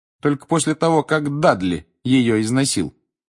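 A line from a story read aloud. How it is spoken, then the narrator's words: Cold reply. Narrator (Russian): холодно отозвался Гарри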